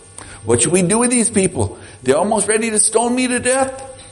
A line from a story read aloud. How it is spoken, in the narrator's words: Moses cried out to the Lord